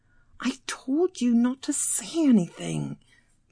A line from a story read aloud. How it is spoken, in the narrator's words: Julia hissed